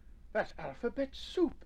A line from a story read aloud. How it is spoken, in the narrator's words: exclaimed Nubbit